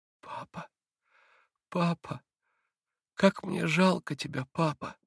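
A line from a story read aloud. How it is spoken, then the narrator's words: Bitter child's moan. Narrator (Russian): горько простонал Илюша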